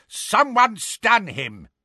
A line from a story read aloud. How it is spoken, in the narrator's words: roared Neville